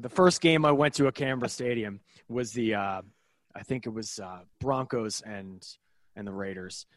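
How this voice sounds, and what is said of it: Thick American accent. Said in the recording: “a very thick American accent”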